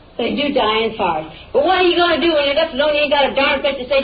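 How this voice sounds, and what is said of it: Yelling, loud angry voice. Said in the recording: “you're yelling at me ... I don't see why you're yelling at me.”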